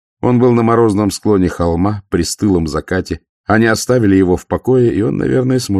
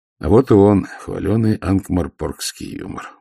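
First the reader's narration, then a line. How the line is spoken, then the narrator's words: Grumbling mutter. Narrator (Russian): буркнул Ваймс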